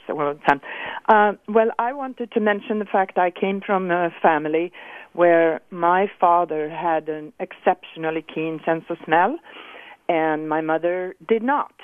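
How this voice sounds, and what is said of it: Hoarse voice. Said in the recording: “Sorry, I'm getting hoarse.”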